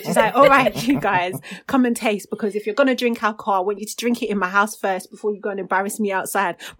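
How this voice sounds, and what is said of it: Put-on accent imitating her mum. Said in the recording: “I always do this accent, because that's not even how my mum speaks”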